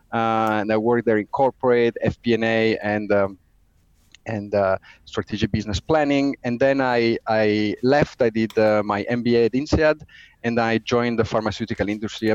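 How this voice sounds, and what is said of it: Italian accent. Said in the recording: “as you probably get from the accent, I'm Italian”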